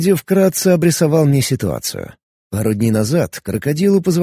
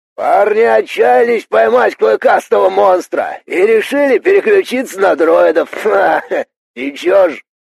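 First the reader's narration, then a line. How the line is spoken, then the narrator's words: Cheerful, distant shout. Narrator (Russian): весело крикнул крокодил, но его голос звучал отдаленно, будто он не со мной разговаривает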